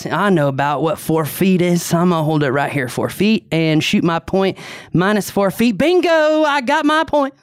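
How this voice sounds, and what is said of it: Exaggerated Southern character voice. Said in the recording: “I'm going to do my Bob voice for Bill, even though Bill is not from the South ... this is my Bob moment ... It's a little exaggerated.”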